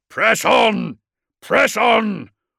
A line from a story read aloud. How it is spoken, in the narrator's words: roared Courland